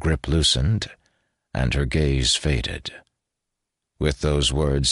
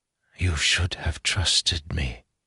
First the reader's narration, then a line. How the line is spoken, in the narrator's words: she whispered